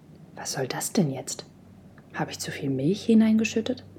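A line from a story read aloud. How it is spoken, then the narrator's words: Muttered. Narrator (German): murmelte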